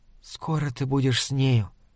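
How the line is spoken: Hurried whisper. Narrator (Russian): торопливо шепнула она

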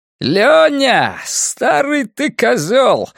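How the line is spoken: Joyful yell. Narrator (Russian): радостно вопит Крейзи

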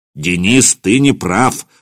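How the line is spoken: Stern. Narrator (Russian): строго сказал Михаил

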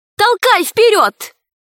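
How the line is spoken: Shouted. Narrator (Russian): крикнула Герасику

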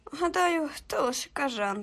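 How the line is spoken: Crushed, dejected mutter. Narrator (Ukrainian): пробормотів він убитим голосом

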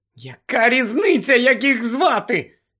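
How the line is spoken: Somewhat hysterical exclamation. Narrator (Ukrainian): дещо істерично вигукнула Герміона

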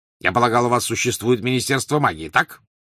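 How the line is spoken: Sudden sharp question. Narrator (Russian): вдруг резко спросил Вернон Дурсль

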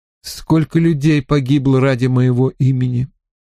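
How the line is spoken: Sighing. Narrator (Russian): вздохнул Стивен

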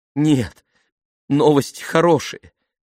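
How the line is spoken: Forced out reluctantly. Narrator (Russian): выдавила она наконец

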